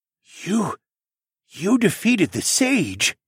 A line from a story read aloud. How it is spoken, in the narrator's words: Tecumseh asked in a breathless voice